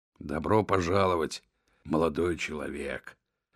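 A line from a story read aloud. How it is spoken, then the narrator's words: Grumbling. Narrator (Russian): пробурчал Том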